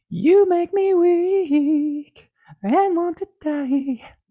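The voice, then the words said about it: Out-of-shape falsetto singing. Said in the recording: “my falsetto's a little out of shape”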